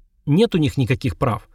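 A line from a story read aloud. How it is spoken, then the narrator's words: Imitating stern tone. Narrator (Russian): перевела Вика, стараясь воспроизвести его суровое выражение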